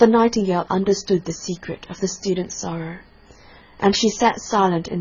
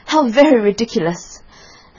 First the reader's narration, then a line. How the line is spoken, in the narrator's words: the little lizard, who was something of a cynic, laughed outright